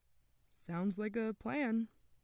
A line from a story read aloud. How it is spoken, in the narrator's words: Bradford said nervously